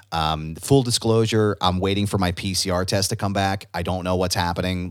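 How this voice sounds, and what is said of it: Slightly raspy voice. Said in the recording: “My voice is a little bit more raspy than I'm used to.”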